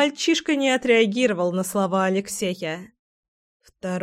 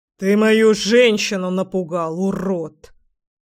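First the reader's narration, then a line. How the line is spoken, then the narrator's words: Menacing through teeth. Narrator (Russian): процедил парень грозно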